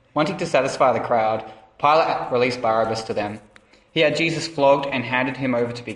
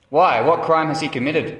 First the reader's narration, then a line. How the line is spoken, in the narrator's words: asked Pilate